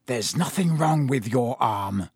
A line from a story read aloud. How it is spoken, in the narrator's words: he hissed at Malfoy